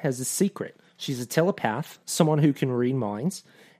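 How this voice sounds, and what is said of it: Put-on Australian accent. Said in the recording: “I do it in my Australian accent?”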